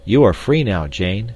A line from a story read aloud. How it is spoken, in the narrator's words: said